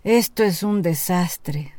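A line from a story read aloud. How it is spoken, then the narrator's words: Sighing. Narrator (Spanish): suspiró Jack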